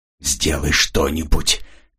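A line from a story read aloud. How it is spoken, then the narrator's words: Desperate whisper in ear. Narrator (Russian): отчаянно прошептал он на ухо Жанне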